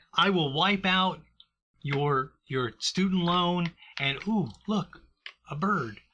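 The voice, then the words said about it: Imitates another person's voice. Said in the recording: “That's my Biden impersonation.”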